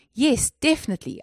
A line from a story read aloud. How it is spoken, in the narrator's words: I shouted